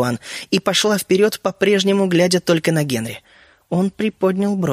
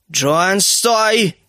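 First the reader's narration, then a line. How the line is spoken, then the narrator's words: Brother shouting. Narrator (Russian): крикнул ее брат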